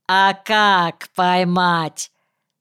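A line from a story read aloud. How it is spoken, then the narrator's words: Sudden loud question. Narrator (Russian): Неожиданно громко в этой тишине раздался вопрос Вовки Земского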